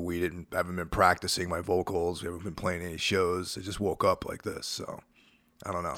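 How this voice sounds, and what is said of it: Hoarse voice. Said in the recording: “My voice, for some unknown reason, is totally hoarse today.”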